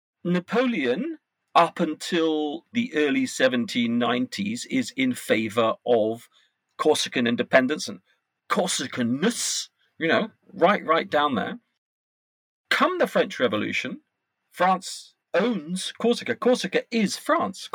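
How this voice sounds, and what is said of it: British accent. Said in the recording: “He has a British accent.”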